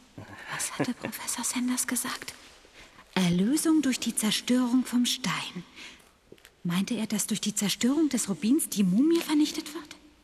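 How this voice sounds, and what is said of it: Whispering to himself. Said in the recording (German): “flüsterst du vor dir hin”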